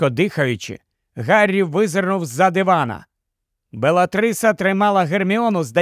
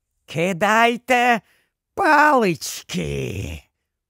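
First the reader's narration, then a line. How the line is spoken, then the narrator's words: Hissed. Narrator (Ukrainian): прошипіла вона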